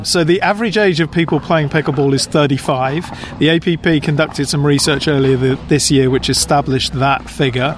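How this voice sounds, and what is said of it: British English accent. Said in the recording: “you can probably tell by my accent that I'm not originally from the US, from the UK”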